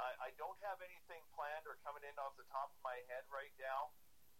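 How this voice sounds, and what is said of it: Usual voice. Nothing is said of it.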